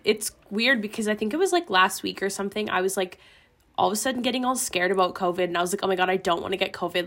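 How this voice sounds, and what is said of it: Sick voice with limited range. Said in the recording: “I don't have much of a range right now ... if I sound sick”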